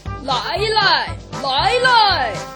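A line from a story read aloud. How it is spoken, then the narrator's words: Loud shout. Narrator (Chinese): 那个声音大叫着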